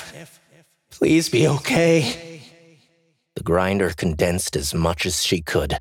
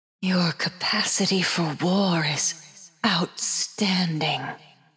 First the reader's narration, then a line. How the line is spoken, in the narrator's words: the grinder whispered, joy evident in her voice